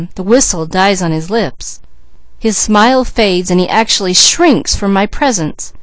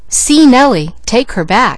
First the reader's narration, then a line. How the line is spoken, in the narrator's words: he exclaimed